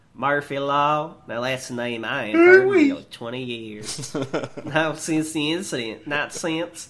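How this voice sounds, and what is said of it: Alluring southern accent. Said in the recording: “his voice weaved with an alluring southern accent.”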